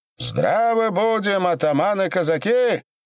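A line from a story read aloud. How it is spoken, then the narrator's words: High-pitched shout. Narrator (Russian): прокричал высоким голосом своим Осип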